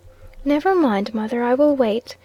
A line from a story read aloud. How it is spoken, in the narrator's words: the little girl said cheerfully